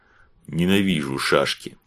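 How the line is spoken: Grumble, fat man. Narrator (Russian): буркнул толстый

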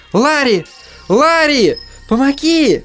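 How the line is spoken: Piercing shriek. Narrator (Russian): Китти пронзительно завизжала

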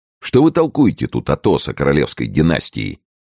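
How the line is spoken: Uncertain tone. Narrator (Russian): не очень уверенным тоном сказал Д'Артаньян

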